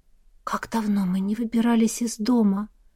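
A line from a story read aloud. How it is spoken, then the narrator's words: Whisper. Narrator (Russian): прошептала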